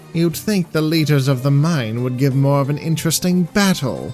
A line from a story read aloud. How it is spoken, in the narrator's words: Mahal said in his usually whiny voice